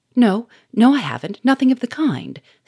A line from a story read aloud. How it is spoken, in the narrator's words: stammered Bernard